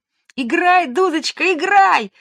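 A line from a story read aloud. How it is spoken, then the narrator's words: Shout. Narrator (Russian): закричала Женя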